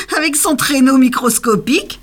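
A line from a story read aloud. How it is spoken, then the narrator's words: Exclaiming. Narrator (French): s'exclama un troisième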